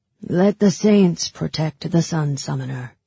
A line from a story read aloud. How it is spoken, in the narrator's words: intoned the priest